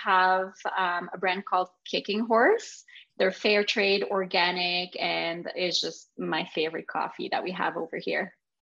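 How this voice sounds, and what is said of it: French Canadian accent. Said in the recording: “if you can't tell by my accent, I'm French Canadian from Quebec.”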